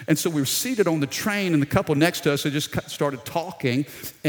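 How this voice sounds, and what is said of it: South Louisiana accent. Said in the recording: “I noticed you have an accent. Where are you from? ... we're down in South Louisiana, Baton Rouge”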